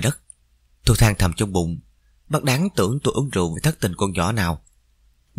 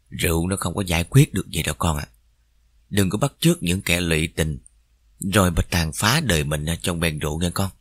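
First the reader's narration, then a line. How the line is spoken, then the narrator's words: Soft gentle advice. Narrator (Vietnamese): bác mới nhỏ nhẹ khuyên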